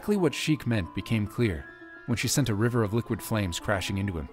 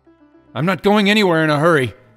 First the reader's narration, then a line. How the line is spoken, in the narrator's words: yelled, still partly encased in ice